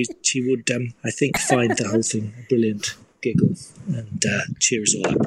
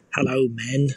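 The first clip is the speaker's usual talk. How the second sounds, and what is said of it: Poorly done put-on character accent. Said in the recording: “It's a terrible accent”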